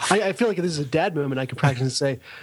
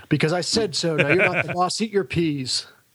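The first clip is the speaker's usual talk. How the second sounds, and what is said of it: Put-on stern dad voice. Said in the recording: “What's that voice? ... It's my dad voice, apparently.”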